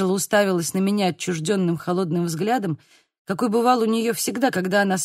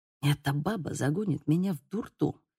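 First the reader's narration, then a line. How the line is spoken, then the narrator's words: Whispered. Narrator (Russian): прошептала она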